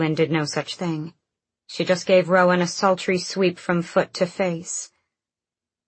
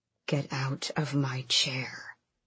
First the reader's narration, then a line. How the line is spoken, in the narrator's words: Rolf said too quietly